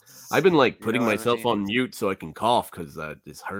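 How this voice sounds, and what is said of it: Congested, stuffed-up nasal voice. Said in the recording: “I'm seriously stopped up ... Your stopped up nose just sounds like so fucking epic ... you sound terrible”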